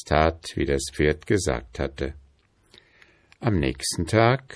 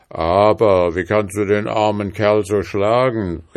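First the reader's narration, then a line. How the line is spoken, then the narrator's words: Calling out. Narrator (German): rief er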